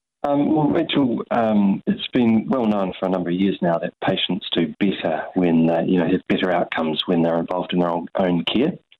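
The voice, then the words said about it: Noticeable regional accent. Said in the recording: “we can understand you. Lovely accent there”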